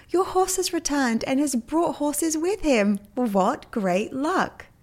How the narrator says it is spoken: The neighbor shouted out

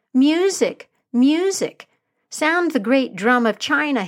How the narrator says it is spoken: cried

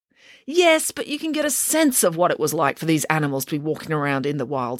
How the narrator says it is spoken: snapped Mr

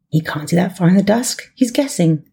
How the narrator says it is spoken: the American whispered

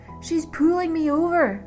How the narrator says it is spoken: Penny shouted back

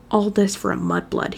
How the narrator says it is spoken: he muttered

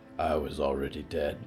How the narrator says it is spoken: Rick muttered

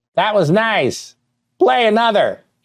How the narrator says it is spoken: she cackled

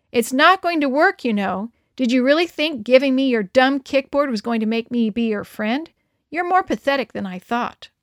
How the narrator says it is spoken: shouted loudly after me

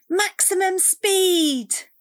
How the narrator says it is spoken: Cassie cried

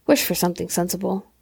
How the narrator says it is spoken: he said gruffly

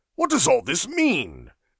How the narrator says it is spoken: he called out in an authoritative manner

